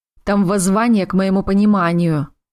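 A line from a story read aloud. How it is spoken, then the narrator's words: Glum telling. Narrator (Russian): уныло поведал Ринвейл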